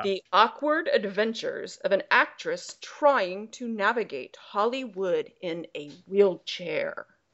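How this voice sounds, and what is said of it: Put-on cool voice. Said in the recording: “do my really cool voice ... It's going to hurt my voice.”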